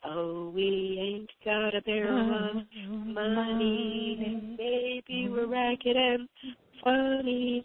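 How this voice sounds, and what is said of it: Rough, raggedy singing voice. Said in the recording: “In my raggedy voice,”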